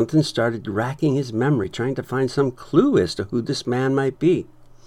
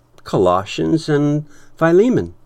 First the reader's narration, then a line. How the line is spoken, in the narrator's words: Epaphras chuckled and answered